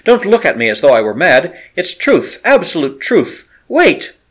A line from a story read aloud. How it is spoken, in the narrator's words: he cried